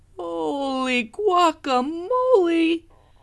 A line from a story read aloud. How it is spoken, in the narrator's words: exclaimed Skippy John Jones